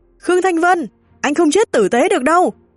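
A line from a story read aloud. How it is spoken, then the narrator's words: Murderous woman roaring. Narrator (Vietnamese): Cô ta bước ra đầy sát khí, hai mắt như tóe lửa, gầm lên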